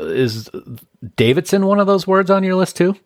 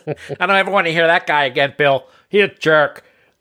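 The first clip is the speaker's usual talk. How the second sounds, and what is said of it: Imitates another person's voice. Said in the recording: “That was my impersonation of your wife, but it probably wasn't a very good one... You did an imitation of her that was not very flattering... hitting that mellifluous tone that she has”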